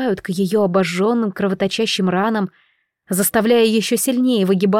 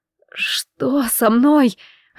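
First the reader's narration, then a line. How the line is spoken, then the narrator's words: Hoarse faint whisper. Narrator (Russian): хриплый, едва различимый в застоявшейся тишине шепот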